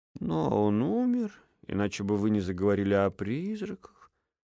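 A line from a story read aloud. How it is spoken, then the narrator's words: Calm. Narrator (Russian): спокойно закончил Эдельхейд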